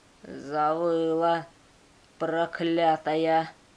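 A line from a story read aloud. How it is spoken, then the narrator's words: Slow hoarse angry reply. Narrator (Russian): Неторопливо отозвался сиплый и злой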